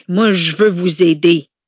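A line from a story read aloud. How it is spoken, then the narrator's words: Roared. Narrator (French): rugit Horace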